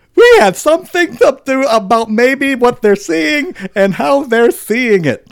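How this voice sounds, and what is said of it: Imitates another person's voice. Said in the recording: “I'll do my best Trump voice”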